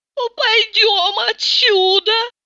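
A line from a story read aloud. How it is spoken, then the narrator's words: Capricious singsong voice. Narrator (Russian): пропела она капризным голоском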